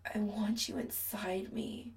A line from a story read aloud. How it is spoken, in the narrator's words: Chris groans